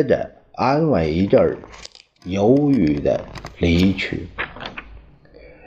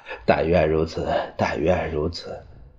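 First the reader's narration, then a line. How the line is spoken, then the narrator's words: Wry, helpless. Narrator (Chinese): 他苦笑着说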